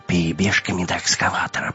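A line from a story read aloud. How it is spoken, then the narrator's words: Whisper. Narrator (Russian): прошептал Вим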